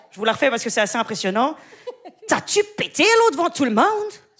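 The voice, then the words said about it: Put-on Québécois French accent. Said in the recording (French): “un nouvel accent que je pourrais faire ... c'est l'accent québécois”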